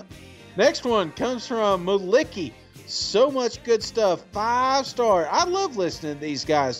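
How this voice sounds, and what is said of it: Tennessee Southern American accent. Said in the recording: “Tennessee accent”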